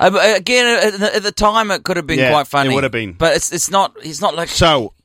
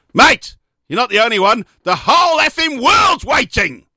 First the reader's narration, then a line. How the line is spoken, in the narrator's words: Lawson snapped